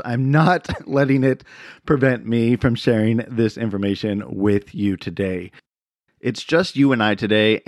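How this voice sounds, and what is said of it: Voice with a slight cough. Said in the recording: “I have a slight cough, you might hear it in my voice”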